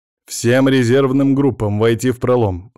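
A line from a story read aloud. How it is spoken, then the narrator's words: Calm confident command. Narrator (Russian): спокойным, уверенным голосом скомандовал Виктор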